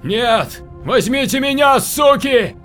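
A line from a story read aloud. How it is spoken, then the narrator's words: Shout. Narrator (Russian): кричал Данил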